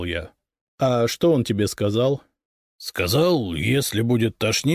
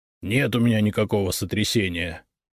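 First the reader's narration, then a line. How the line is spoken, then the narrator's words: Grumbled mutter. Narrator (Russian): буркнул Игнат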